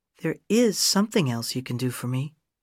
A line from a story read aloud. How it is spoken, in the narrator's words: she said in a quiet, warm voice